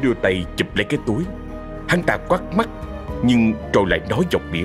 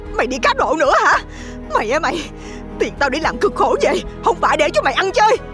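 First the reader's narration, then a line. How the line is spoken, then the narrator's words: Angry woman shouting. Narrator (Vietnamese): Hiền cô ta hét lên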